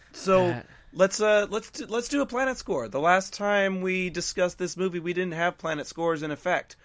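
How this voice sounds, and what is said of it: Slightly strained, fading voice. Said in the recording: “I'm losing my voice a little bit”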